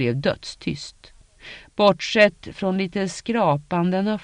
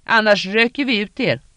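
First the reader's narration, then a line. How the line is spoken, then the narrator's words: Screamed. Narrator (Swedish): skrek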